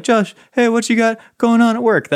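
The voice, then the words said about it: Imitates another person's voice. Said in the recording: “That's my impression of you, by the way.”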